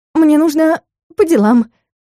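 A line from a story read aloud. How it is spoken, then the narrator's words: Quick squeak. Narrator (Russian): быстро пискнула я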